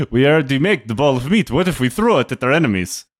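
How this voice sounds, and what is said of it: Put-on Russian accent. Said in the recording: “I love that we both went Russian doing this. ... Russian's all I got.”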